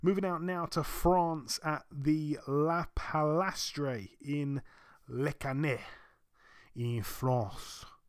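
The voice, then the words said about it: Clumsy attempt at French pronunciation. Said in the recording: “It's a terrible accent pronunciation... That wasn't too bad”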